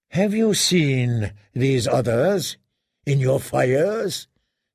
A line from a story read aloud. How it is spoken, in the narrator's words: he asked wearily